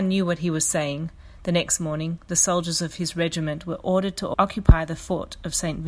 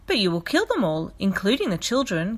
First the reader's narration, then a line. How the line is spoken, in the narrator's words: Gabrielle chirped